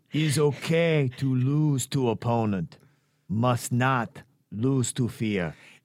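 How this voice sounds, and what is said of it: Put-on Japanese accent, Miyagi voice. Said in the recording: “I'm going to try to do my best Japanese impression ... I'll be your Miyagi”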